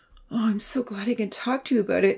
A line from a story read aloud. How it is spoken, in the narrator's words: she exclaimed, happy to be flanked on both sides by loving companions